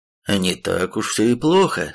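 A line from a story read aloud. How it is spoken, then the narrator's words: Relieved exhale. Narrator (Russian): с облегчением выдохнул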